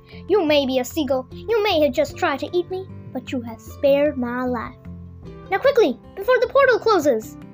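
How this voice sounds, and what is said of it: Squeaky little ant voice. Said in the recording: “squeaky voice ... he squeaked solemnly”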